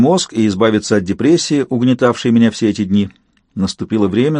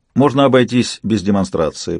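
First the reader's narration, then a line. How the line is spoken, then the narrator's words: Forced casual tone. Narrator (Russian): попытался сказать я самым непринужденным тоном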